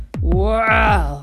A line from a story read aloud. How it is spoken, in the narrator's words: growled Anubis